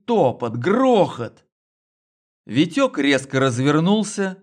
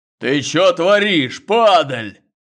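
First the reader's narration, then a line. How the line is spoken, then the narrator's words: Ferocious bass roar. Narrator (Russian): взревел свирепый бас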